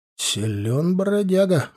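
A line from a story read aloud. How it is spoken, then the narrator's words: Respectful mutter. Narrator (Russian): уважительно пробормотал я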